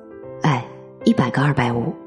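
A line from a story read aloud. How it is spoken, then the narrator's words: Laughing, self-amused joke. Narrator (Chinese): 那位男士哈哈大笑了两声，自以为很幽默的说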